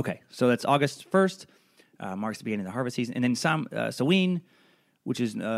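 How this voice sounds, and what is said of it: Usual voice. Nothing is said of it.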